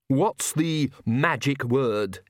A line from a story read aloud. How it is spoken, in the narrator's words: he snarled